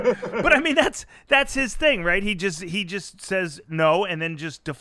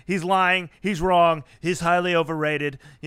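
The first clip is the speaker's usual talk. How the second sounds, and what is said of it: Good Donald Trump impression. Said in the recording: “He's like Trump ... that's a good impression.”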